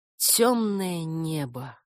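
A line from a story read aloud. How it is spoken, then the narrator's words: Breathed out. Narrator (Russian): выдохнула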